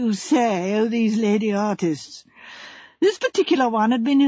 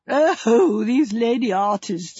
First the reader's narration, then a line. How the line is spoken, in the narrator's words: said Joyce, laughing